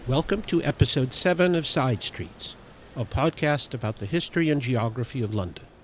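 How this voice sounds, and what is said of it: Speaks with a non-local accent. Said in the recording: “Despite my accent”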